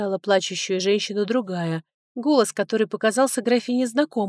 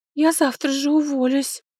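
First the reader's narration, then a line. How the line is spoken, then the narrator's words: Sobbing. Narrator (Russian): продолжала рыдать ее подруга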